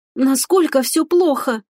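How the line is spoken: Hoarse wheeze. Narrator (Russian): прохрипела Стефани Тавин

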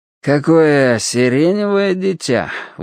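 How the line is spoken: Breathless exclamation. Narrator (Russian): выдохнул спица

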